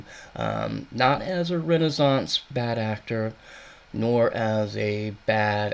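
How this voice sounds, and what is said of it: Usual voice. Nothing is said of it.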